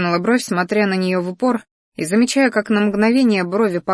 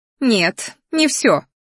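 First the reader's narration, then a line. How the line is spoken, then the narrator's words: Snarled. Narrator (Russian): рыкнула она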